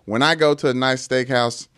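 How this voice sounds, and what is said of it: Put-on regional accent. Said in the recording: “What is this accent stuff? ... This is how these people talk.”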